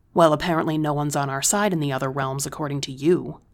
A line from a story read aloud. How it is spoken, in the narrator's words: I spat